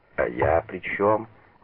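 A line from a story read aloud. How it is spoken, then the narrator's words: Cold, curt. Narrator (Russian): холодно бросил Манберг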